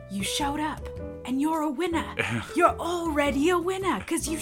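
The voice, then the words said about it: Imitates another person's voice. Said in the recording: “gonna do my Daniel voice ... it's like Jason Statham ... He sounds like Jason Statham”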